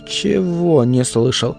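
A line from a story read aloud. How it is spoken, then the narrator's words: Stuttering question. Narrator (Russian): уточнил Джейк, заикаясь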